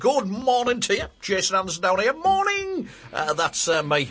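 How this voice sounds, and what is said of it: Very happy, cheerful morning voice. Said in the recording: “I sound awfully happy, don't I, even for this hour of the morning”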